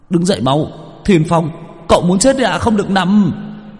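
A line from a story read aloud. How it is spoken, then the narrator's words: Urgent shout. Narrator (Vietnamese): Chiến biết la lên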